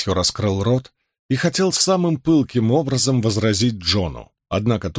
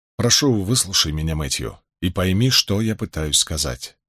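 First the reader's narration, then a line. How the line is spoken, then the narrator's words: Quiet. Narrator (Russian): тихо проговорил он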